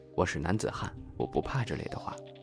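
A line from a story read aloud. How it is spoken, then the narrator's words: Fearful muttering. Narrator (Chinese): 我也挺害怕的，就嘴里嘟囔着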